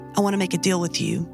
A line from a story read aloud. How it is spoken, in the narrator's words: they said